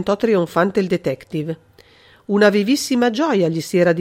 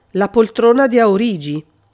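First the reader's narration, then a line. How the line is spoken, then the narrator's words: Icy voice. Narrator (Italian): Il conte intervenne con voce gelida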